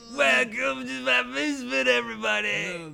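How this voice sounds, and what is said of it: Cartoon kid character voice. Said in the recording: “Do I sound like one of the Cosby kids? Because that's what I'm going for today.”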